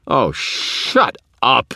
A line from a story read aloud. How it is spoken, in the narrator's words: I shouted, exasperated